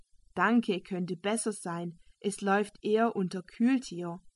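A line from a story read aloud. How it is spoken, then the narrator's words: Plain. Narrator (German): antwortete der Schwede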